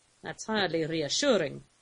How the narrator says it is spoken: Lou observed dryly

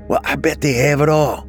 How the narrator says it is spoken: Bobby said excitedly

